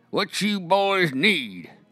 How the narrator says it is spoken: he asks in his unschooled drawl

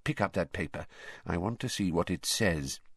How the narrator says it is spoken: he added in an undertone

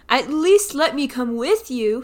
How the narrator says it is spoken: he pleaded

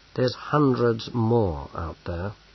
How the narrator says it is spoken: said Bane gloomily

